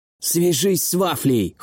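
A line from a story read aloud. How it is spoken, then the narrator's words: Hoarse. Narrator (Russian): хрипло сказал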